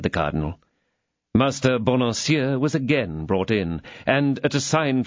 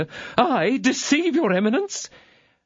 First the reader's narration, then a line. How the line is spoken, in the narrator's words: cried Bonancieux